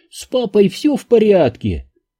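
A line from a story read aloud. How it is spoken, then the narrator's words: Mocking squeaky voice. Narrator (Russian): Бобби Бернштейн передразнил дурацким тоненьким голоском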